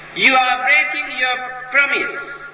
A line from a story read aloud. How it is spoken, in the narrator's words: shouted Mara